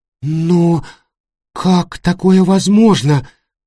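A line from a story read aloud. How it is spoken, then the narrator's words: Cracked voice. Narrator (Russian): спросила надтреснутым голосом Сандра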